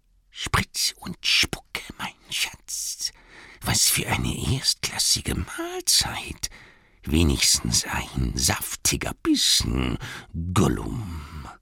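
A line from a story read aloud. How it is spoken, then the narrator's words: Hissing whisper. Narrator (German): flüsterte zischelnd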